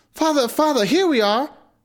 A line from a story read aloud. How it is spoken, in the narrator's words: Gretel called out